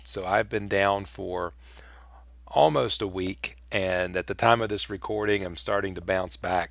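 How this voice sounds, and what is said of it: Sick, weakened voice. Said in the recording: “I have been sick, friends. I have really been sick... I do apologize for my voice”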